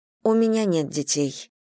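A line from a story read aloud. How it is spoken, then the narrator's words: Even voice. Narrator (Russian): ответила Вера ровным голосом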